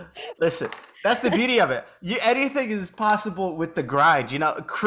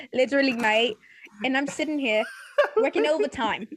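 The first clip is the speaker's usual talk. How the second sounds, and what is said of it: Speaks in a put-on accent. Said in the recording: “You're gaslighting me with an accent. I'm like, who is this”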